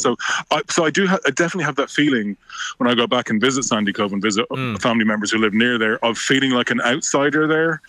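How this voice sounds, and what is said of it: South Dublin Irish accent. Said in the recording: “it's quite definitely still it's a Dunleary, South Dublin accent. There's no doubt about that.”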